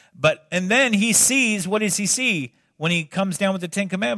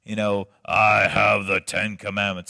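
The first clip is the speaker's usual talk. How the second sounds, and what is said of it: Poor Charlton Heston impression. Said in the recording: “terrible Charlton Heston impression”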